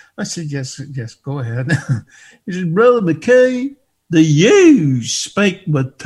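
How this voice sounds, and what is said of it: Usual voice. Nothing is said of it.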